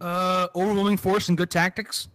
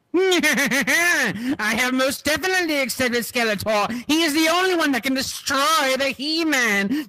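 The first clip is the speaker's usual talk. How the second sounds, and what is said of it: Skeletor cartoon villain voice. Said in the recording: “That was great, actually, I have to say. ... That was way better than my joke of an impression.”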